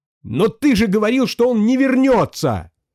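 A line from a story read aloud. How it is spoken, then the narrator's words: Scream. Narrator (Russian): завопил Грей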